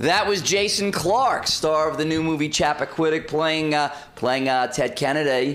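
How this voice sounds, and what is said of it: Bad Ted Kennedy impression. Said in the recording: “My bad, very bad Ted Kennedy imitation.”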